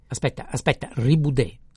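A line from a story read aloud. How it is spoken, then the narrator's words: Angry shout. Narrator (Italian): gridò il prete con voce irosa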